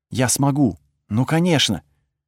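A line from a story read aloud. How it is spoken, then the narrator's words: Whisper. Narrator (Russian): прошептала она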